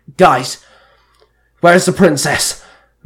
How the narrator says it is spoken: Merrick barked

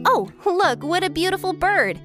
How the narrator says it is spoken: I shouted

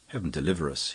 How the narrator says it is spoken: he muttered

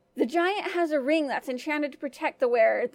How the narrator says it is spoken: the woman answered desperately

